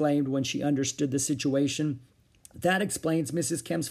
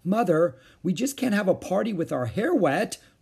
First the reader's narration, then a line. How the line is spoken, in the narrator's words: wailed Beezus